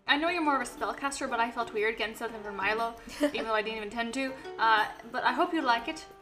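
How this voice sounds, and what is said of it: Weird put-on accent. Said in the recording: “That was a weird accent.”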